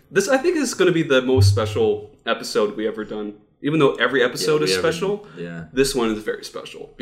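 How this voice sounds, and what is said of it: Dutch accent. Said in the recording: “Is that how they say it in Holland? ... It's my Dutch accent.”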